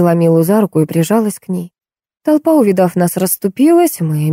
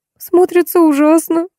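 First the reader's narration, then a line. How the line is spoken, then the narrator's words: Sobbing. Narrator (Russian): всхлипнула Милка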